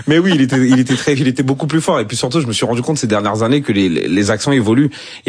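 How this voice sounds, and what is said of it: Ivorian-accented French. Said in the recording (French): “votre accent ivoirien ... il est toujours là ... l'accent est toujours là. On peut le sentir à tout moment.”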